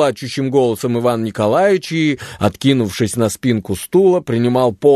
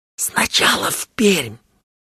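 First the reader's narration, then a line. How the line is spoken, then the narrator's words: Quiet. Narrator (Russian): тихо говорил Чечевицын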